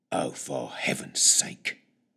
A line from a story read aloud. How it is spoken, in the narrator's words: growled to himself